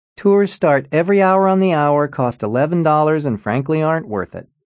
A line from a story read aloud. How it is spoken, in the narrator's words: answered in a monotone